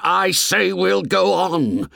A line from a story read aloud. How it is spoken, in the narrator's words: shouted Ralph furiously